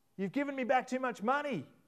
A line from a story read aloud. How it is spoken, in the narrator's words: he yelled out to her